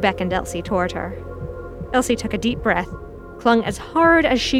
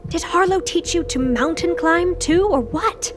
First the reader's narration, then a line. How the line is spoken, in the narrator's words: Lou scoffed